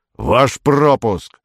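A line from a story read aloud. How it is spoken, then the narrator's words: Captain's growl. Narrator (Russian): прорычал капитан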